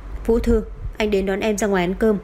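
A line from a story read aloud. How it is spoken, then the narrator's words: Cold male voice, distant. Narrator (Vietnamese): giọng nói lạnh lùng của người đàn ông truyền tới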